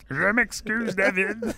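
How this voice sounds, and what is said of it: Kermit the Frog-style voice. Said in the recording (French): “avec sa voix de Kermit”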